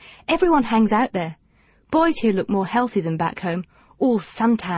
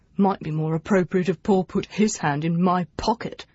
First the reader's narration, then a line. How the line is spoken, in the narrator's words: he muttered